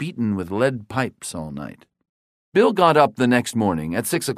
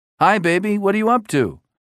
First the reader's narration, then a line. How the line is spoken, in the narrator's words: he asked cheerfully